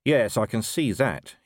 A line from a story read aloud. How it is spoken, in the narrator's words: he said